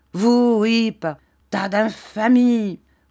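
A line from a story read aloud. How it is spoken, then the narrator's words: Exclaiming. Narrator (French): s'écria M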